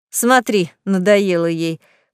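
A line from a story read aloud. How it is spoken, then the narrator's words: Scoffing. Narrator (Russian): хмыкнула Марфа Васильевна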